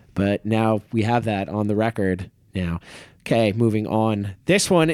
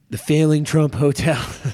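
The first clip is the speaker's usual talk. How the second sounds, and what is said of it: Imitates another person's voice. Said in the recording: “I can never do a Trump voice. I should never try to do a Trump voice.”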